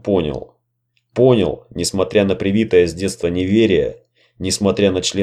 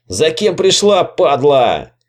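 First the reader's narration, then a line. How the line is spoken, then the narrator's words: Hysterical yell from behind. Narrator (Russian): истерично заорал сзади Бабич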